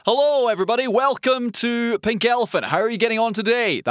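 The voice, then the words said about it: Loud, shouty radio announcer voice. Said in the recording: “doing my Shouty Man voice ... you're shouty ... That sort of I'm announcing on the radio all the time voice”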